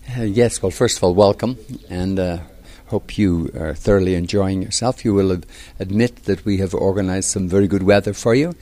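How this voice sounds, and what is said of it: Irish accent. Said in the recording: “I was actually born not in Lexington, as my accent probably tells you. I was born in Ireland”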